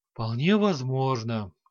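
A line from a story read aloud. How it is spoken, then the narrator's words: Sighing. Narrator (Russian): вздохнул тот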